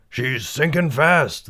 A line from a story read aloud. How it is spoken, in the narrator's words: the captain hollered